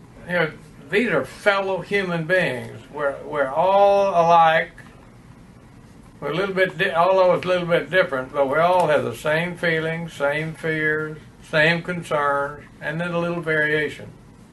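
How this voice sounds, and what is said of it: Texas accent. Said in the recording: “that is an example of the Texas accent”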